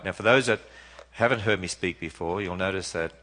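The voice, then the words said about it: Non-American English accent. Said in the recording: “I don't speak American, I don't want to. ... you've got to get used to this accent”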